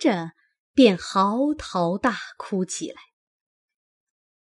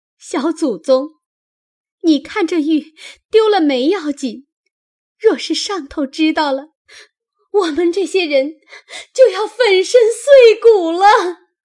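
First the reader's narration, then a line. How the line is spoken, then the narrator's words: Anxious crying. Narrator (Chinese): 袭人等急得又哭道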